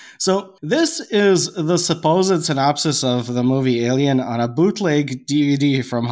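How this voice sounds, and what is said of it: Usual voice. Nothing is said of it.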